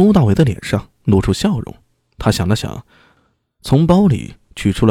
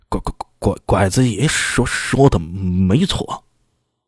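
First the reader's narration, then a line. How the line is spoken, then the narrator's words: Stuttering. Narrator (Chinese): 赵可把结结巴巴的说道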